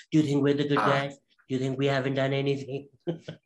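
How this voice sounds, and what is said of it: Impression of Donald Trump. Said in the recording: “That was a pretty good impression right there.”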